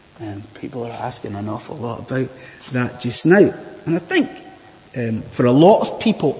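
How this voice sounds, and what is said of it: Scottish accent. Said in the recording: “judging by my weird accent, I am from a land far, far away. I am from Bonnie, Scotland.”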